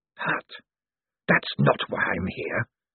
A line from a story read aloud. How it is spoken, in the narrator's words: hissed the dark figure